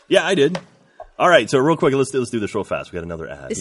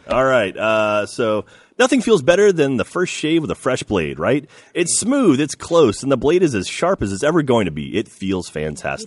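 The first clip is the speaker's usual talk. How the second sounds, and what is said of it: Imitates another person's voice. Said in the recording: “my best Ryan impersonation.”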